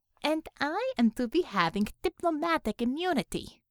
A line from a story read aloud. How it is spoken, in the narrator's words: said sweetly